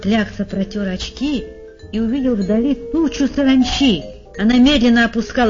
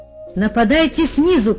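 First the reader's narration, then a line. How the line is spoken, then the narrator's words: Shouting over radio. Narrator (Russian): кричал пан Клякса, и голос его раздавался во всех приемниках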